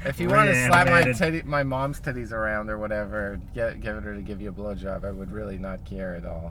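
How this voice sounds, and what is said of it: New Jersey accent. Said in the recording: “I have this accent ... This is just a Jersey accent”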